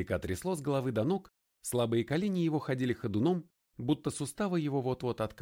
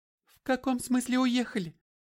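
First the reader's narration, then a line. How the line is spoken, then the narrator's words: Squeaked. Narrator (Russian): пискнула Джан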